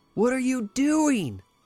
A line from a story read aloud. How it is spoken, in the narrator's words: Lenore shrieked